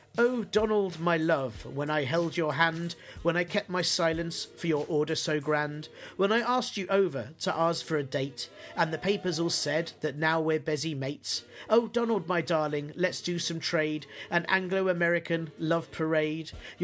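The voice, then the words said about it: Theatrical poetry-reading voice. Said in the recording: “I'll put on my poetry voice.”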